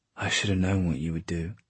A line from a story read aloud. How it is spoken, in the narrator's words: Jem said in a low voice